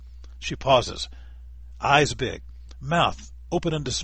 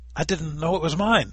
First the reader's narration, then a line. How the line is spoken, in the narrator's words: sputters